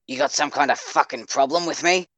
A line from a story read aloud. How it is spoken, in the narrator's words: growled